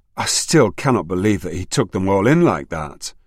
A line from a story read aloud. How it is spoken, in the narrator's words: she sighed and said